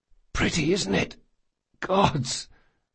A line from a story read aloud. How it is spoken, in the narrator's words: whispered Locke